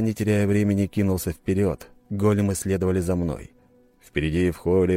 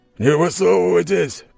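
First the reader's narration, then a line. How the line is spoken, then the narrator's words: Growling voice. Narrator (Russian): прорычал еще один голос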